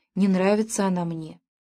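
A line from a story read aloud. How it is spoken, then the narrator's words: Quick whisper. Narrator (Russian): Гизлер сразу шепнул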